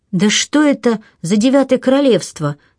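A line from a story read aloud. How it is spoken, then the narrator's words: Irritated exclamation. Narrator (Russian): с раздражением воскликнула Мэри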